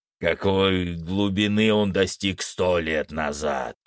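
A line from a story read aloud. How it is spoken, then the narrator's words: Growling. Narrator (Russian): прорычал Фенрис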